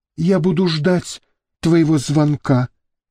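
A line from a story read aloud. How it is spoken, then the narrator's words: Breathed out. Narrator (Russian): выдохнула Мириам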